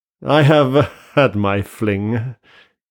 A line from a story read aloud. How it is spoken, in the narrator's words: he said with a queer laugh